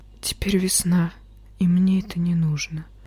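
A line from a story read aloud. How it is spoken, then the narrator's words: Whisper. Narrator (Russian): прошептал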